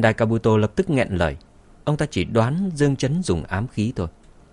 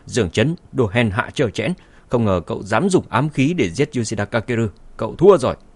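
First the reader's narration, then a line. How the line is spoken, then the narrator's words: Furious loud shout. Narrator (Vietnamese): Sendai Kabuto căm tức hét lớn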